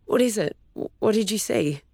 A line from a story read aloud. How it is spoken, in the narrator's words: Cabby asked, her speech somewhat slurred from having just woken up